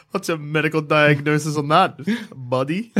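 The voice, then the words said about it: Mimicking the other speaker's accent. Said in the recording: “Are you imitating my accent? ... No. Now like... I am.”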